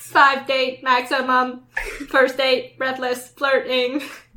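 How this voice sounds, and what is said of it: Robotic voice. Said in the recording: “robot voice ... your robot impression”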